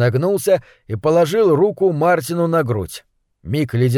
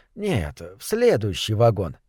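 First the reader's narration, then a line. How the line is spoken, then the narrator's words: Quiet. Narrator (Russian): тихо сказал кондуктор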